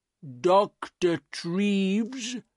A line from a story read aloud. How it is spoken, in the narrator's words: said slowly